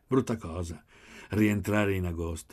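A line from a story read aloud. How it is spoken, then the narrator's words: Sighing. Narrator (Italian): sospirò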